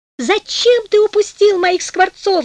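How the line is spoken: Shouting. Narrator (Russian): закричала она

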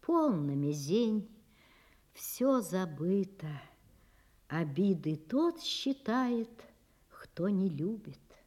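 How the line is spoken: Gentle, affectionate. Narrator (Russian): Говорит ему ласково Онега

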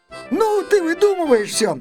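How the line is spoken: Laughing. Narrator (Russian): засмеялась Ира

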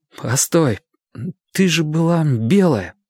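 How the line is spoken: Trembling voice. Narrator (Russian): продолжал я дрожащим голосом

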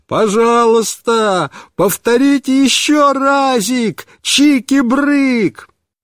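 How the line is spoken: Delighted full-throated shout. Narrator (Russian): Он весь рассиялся от удовольствия и снова закричал папе во все горло

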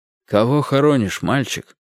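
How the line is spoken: Old man's quiet question. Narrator (Russian): тихо спросил меня пожилой человек в папахе

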